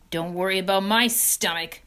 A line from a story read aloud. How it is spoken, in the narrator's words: snarled Templeton